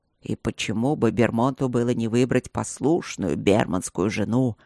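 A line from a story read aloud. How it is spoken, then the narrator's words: Displeased growl. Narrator (Russian): прорычал Ровент недовольно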